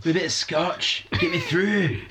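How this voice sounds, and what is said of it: Bad put-on harsh Glaswegian accent. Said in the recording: “harsh Glaswegian ... That's the best Scotch accent I've ever done, and I'm really bad. And it was really bad.”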